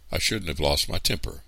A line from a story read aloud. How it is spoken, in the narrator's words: said Aunt Claudia